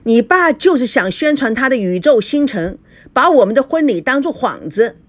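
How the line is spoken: Shouting. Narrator (Chinese): 赵熙喊道

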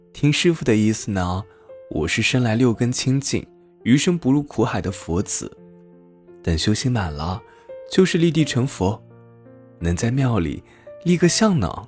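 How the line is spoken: Foolish giggling young monk. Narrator (Chinese): 小和尚傻笑呵呵的说

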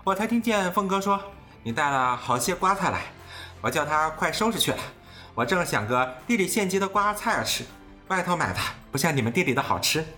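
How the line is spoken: Laughing. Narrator (Chinese): 贾母又笑道

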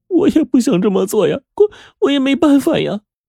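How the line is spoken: Tearful voice. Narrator (Chinese): 她带着哭腔说

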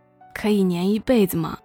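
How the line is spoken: Bashful laughing. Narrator (Chinese): 崔旭不好意思的笑着说

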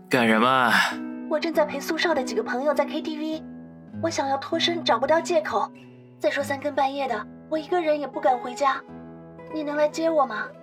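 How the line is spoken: Pleading. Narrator (Chinese): 杨思思竟然带着哀求的语气说

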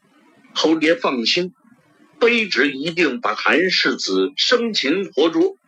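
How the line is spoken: Excited shouting. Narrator (Chinese): 亲卫队长更是兴奋之情溢于言表，大声喊道

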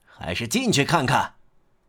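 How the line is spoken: Father calling out. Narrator (Chinese): 父亲又叫道

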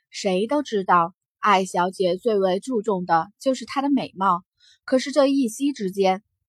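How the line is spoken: Soft sigh. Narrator (Chinese): 管家轻叹了口气道

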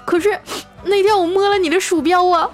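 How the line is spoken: Girl sobbing loudly. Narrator (Chinese): 那女生哭得更大声了，说

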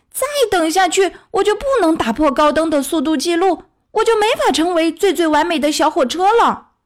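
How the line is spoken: Loud cry. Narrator (Chinese): 艾米丽大叫

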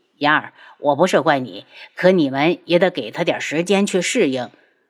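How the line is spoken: Sighing. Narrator (Chinese): 花希墨又叹了口气

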